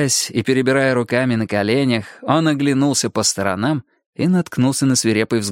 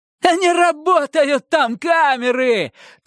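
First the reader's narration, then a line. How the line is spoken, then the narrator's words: Triumphant shout. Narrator (Russian): торжествуя крикнул Романов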